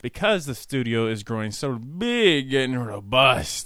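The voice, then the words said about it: Put-on Italian accent. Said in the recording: “Was that accent too? ... That was Italian.”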